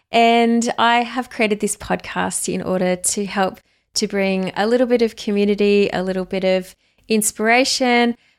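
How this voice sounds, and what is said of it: Australian accent. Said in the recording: “You can hear it in my accent ... I am an Aussie girl.”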